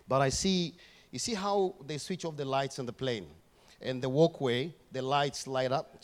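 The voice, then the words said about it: Speaks with a noticeable accent. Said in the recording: “You catching my accent?”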